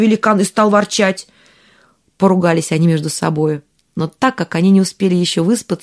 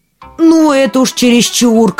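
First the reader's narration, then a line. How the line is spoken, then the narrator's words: Shouted. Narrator (Russian): крикнул тот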